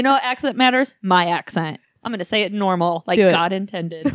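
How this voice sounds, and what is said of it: Usual voice. Nothing is said of it.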